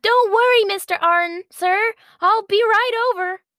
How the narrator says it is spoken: Bonnie's eyes brightened and she yelled

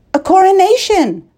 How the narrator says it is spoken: Colin said brightly

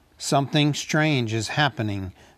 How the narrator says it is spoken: said Thorin

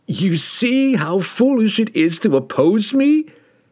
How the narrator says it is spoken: Kessel squealed

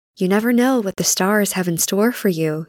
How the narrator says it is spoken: he whispered

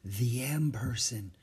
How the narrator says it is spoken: she whispered

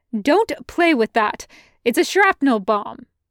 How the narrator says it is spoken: he snapped

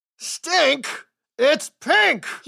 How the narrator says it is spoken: he roared

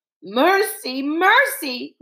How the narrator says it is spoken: wailed the beast

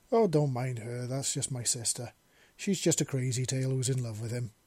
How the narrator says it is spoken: Ven said

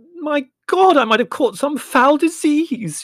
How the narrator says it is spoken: she wailed, and bursting into tears

